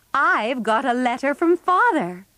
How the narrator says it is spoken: cried Mrs

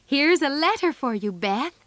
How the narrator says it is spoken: they called out

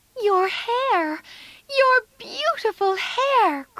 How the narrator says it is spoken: cried Amy

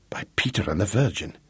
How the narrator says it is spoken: he muttered

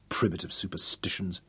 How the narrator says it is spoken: Nogo muttered contemptuously

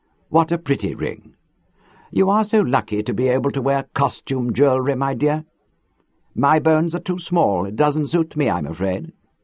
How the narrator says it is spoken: in her sweetest voice, told Hilary

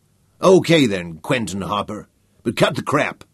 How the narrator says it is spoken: Walsh said angrily

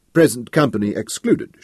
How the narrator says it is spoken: she laughed

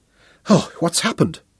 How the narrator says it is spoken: she gasped

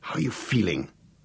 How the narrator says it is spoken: muttered Gareth anxiously

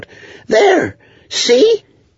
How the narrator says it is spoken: Kenlith cried out

